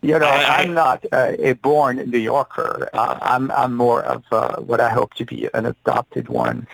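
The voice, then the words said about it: Slight non-native accent, good English. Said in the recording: “I do salute you in spite of a slight accent... But you speak English very well”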